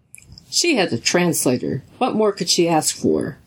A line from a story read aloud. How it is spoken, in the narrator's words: Dawson snapped